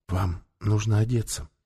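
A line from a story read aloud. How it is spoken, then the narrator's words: Whisper. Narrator (Russian): прошептала она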